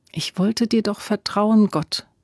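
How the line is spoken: Quiet prayer. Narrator (German): betete sie leise

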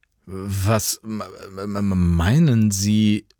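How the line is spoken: Irritated stammering. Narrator (German): stammelte Jan irritiert

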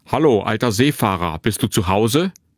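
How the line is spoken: Loud familiar voice calling. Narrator (German): eine vertraute Stimme laut rufen

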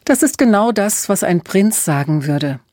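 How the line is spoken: Laughing. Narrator (German): lachte Emma

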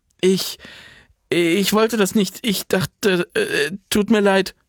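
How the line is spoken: Stammering. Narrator (German): stammelte sie

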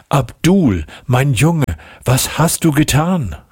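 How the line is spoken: Called out. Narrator (German): rief sie

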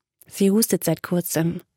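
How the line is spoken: Quiet trembling voice. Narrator (German): fuhr Kyla leise fort, wobei ihre Stimme zitterte

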